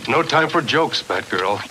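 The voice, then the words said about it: Superb Adam West impersonation. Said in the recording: “did a superb Adam West impersonation”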